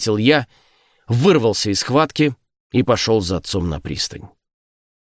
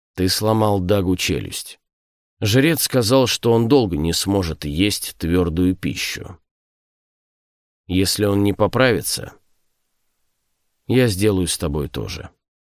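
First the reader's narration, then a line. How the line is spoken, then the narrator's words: Calm statement. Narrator (Russian): Кнут и спокойно сказал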